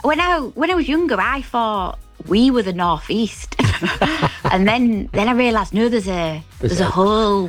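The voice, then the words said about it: Hull accent. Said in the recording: “I could only do a Hull accent ... I can't shift this accent ... it's a great accent”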